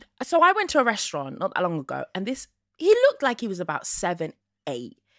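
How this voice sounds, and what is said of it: Usual voice. Nothing is said of it.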